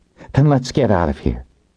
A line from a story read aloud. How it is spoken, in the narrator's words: she sighed